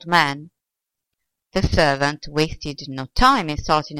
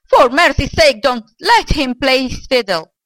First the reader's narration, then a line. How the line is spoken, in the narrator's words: shouted the old man